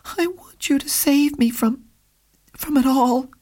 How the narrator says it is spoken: she replied in a thin, tremulous voice

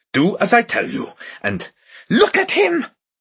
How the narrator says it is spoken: she cried

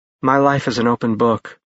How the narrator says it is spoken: Ash said in a calm voice

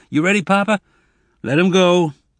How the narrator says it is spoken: Zek shouted

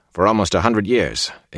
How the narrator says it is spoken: Ingtar said bitterly

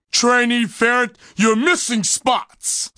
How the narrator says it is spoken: Sarge boomed just behind Dane

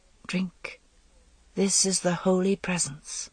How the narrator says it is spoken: she whispered

